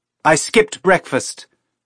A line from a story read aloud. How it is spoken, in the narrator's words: Teresa yelled, and her voice sounded normal again